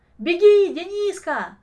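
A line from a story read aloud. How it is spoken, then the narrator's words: Shouting while running. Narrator (Russian): кричал на бегу Ломоносов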